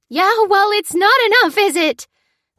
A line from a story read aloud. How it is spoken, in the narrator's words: cried the tearful resident